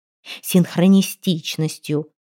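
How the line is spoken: Growled. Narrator (Russian): рыкнула Анжелика

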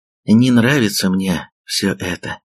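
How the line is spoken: Sighing. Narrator (Russian): вздохнула она

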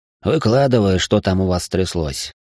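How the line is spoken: Gloomy. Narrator (Russian): мрачно предложил

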